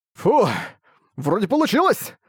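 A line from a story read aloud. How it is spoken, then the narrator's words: Delighted exclamation. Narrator (Russian): Восторженно воскликнул Арк, показавшийся из-под воды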